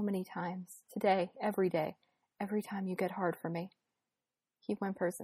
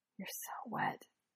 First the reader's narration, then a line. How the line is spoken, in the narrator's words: he whispers